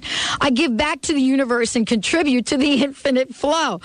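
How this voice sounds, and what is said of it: New York accent. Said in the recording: “my little New York accent”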